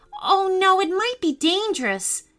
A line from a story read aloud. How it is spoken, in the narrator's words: Elsie yelled at her